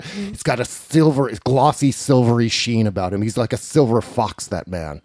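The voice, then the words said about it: Imitates another person's voice. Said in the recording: “my Kim Johnson impression”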